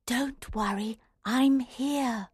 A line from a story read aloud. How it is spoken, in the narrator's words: Alice whispered